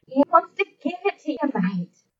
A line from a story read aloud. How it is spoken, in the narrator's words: John said with a chuckle